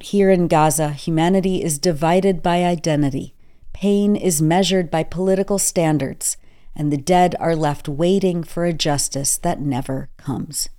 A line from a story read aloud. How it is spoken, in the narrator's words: Basal said